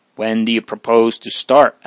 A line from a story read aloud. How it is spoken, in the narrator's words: asked Father Gabriel